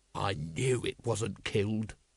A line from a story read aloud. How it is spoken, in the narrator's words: growled Vimes